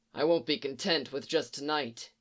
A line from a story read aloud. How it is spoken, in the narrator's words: he muttered thickly